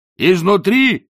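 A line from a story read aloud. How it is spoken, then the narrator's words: Shouting back. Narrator (Russian): прокричал в ответ Ринсвинд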